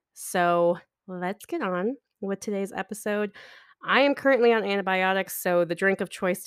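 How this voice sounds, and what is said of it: Raspy, sick-sounding voice. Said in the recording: “my voice is a little bit more raspy ... I clear my throat a couple of times ... because I have been sick with strep throat”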